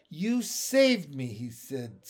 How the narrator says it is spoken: I said slowly

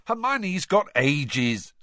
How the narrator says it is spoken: snapped Ron

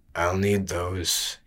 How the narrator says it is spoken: he murmured

